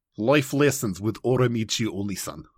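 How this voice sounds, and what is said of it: Put-on Russian accent. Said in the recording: “You sound by, Russian when you say it like that ... say the title in, in your Russian accent ... Yeah, see, Russian. It sounds Russian ... I've been doing the Russian accent”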